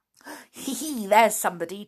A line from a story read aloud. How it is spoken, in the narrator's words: chuckled Binkle